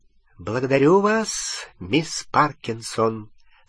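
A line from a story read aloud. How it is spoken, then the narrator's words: Even voice. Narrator (Russian): сказала профессор МакГонагал ровным голосом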